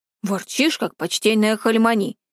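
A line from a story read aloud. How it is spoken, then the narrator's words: Grumbling man. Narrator (Russian): пробурчал он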